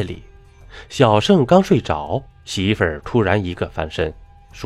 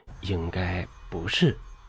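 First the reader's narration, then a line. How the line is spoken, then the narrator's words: Low voice. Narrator (Chinese): 女人低声道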